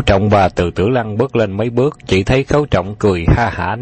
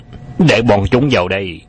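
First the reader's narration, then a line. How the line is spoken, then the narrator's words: Sharp shouted command. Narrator (Vietnamese): Thiệu Biểu Châu lập tức quát lên ra lệnh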